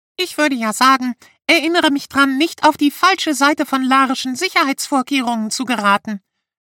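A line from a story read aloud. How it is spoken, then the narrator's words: Squeaky voice. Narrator (German): piepste Gucki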